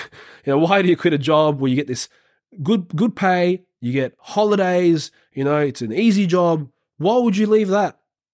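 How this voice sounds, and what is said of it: Imitates another person's accent. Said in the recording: “I don't know why I'm doing this accent, but that's how they talk.”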